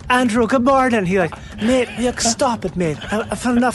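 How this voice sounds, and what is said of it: Imitated thick Cork Irish accent. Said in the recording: “had a really thick accent from Cork ... Stop making fun of my accent.”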